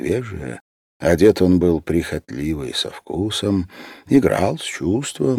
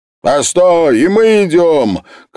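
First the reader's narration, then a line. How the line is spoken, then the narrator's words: Shout. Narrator (Russian): крикнул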